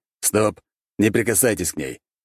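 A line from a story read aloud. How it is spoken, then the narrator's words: Sharp, abrupt. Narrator (Russian): резко остановил я его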